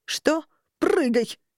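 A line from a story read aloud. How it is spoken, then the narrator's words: Barking snap. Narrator (Russian): рявкнула она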